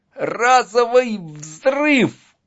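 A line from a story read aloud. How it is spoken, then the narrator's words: Strangled shout. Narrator (Russian): крикнул сдавленным голосом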